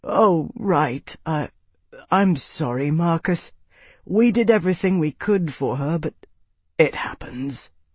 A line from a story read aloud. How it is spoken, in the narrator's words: he replied wearily